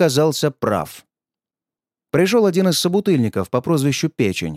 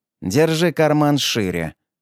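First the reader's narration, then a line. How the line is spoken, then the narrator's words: Snorting. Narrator (Russian): хмыкнул Аврелий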